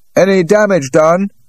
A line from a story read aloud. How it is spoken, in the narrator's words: He called out